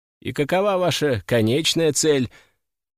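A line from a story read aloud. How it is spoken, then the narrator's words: Plain. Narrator (Russian): спросил я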